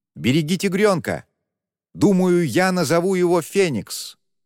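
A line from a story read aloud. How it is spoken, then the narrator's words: Shouted. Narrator (Russian): крикнул Юси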